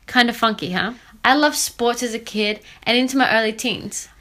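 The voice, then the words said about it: Slight mixed Australian accent. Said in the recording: “I have a slight accent in my voice. I am Australian ... picked up unique accents.”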